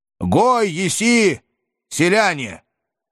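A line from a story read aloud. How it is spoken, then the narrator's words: Loud question. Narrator (Russian): громко поинтересовался я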